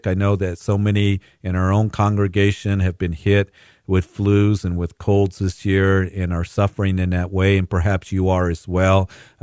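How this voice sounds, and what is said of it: Slightly hoarse voice. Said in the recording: “my voice is a little hoarse, it's because I'm fighting a cold”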